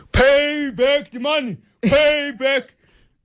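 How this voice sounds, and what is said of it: Shouted imitation of another person's voice. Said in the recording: “do a Malema impersonation”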